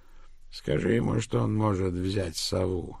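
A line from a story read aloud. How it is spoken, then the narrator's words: Creaky voice. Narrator (Russian): проскрипел Элдон Розен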